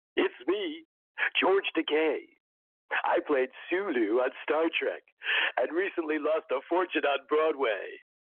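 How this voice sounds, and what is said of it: Impression of George Takei. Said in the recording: “that was a good impression of George Takei”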